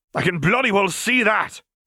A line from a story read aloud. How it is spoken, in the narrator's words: snapped, wincing as a roar of fury sounded across the battlefield